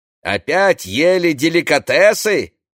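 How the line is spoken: Shouting. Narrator (Russian): кричал Одет

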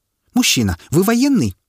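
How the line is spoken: Hysterical middle-aged woman. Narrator (Russian): Дамочка лет 50 с истеричным голосом

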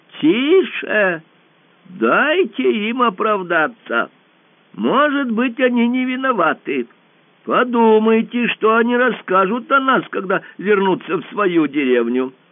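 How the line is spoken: Exclaiming. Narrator (Russian): воскликнул

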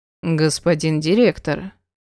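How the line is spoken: Dry. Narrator (Russian): произнес сухо Эдгар

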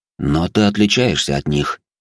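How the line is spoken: Confident tone. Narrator (Russian): уверенным тоном произнес мой собеседник

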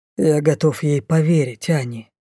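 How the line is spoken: Quiet. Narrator (Russian): тихо сказал король

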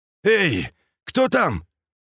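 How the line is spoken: Sudden hoarse shout from ahead. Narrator (Russian): вдруг раздался спереди хриплый крик

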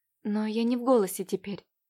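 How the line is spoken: Quiet timid murmur. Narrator (Russian): пролепетала тихо Катя

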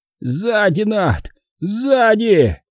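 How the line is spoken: Hoarse rasp. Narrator (Russian): прохрипел Зик

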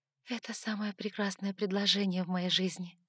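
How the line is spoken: Breathed out. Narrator (Russian): выдохнула

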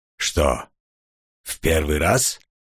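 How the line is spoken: Calm, unmocking question. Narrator (Russian): спокойно спросил маг, и в его голосе я не услышал насмешки

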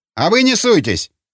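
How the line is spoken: Barked. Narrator (Russian): рявкнул Линч

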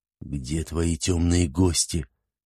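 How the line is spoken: Quiet. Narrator (Russian): негромко спросил Шузмарал

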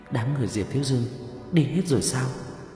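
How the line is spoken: Quiet question. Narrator (Vietnamese): Vương Bình nhỏ giọng hỏi

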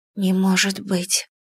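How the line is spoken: Whisper. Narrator (Russian): прошептала я

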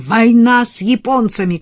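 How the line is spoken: Shouted. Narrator (Russian): крикнул

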